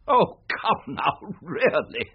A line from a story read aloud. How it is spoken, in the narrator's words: laughed Holmes